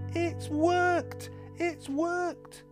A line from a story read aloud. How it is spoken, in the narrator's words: cried